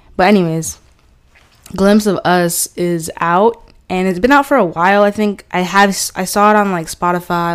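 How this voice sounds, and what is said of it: Congested voice from a cold. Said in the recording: “I'm a little choked up a little bit because I'm getting over this cold”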